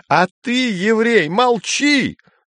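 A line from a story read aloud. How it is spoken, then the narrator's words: Yelled. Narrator (Russian): заорал Гейгер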